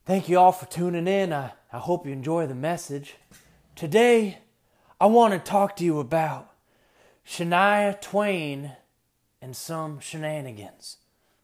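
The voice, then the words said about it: Joel Osteen impression. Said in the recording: “I got to do my Joel Osteen thing ... I still think I do a pretty good Joel impression.”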